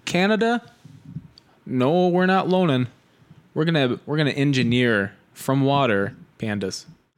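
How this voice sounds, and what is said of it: Put-on Minnesota-style accent. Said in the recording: “That's not a Canada accent. That's a Minnesota. ... halfway there. ... it's real South Canada.”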